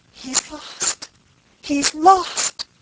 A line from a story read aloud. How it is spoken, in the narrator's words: cried Frances